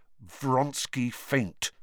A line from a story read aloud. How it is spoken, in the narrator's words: said Harry through gritted teeth